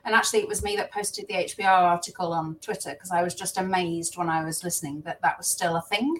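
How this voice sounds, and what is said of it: Midlands English accent. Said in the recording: “I have a Midlands accent, and it's an accent that, for those people who are not from the UK, it's kind of a mix of a Birmingham and a Manchester and a Liverpudlian accent, because it's smack in the middle.”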